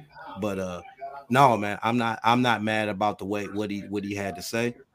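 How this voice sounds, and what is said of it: Hoarse voice. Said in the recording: “my voice sounds a little hoarse... trying to get over something... you have to excuse my voice if I kind of go in and out a little bit”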